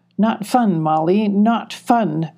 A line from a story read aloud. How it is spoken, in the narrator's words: grumbled Spunky